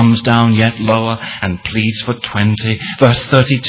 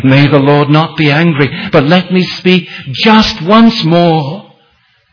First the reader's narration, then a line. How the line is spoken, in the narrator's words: as he pleads for that final number of only 10